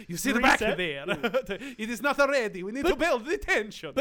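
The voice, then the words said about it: Poor put-on Italian accent. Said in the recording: “our poor Italian accents”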